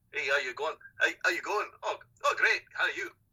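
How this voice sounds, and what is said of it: Rough imitation of Glaswegian accent. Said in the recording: “He was from Glasgow ... I'm not going to do the accent properly now because I don't have it in my head ... I just answered him back in an accent”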